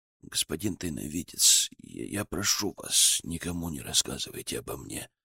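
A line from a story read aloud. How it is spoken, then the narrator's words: Muffled voice. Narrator (Russian): глухо сказал он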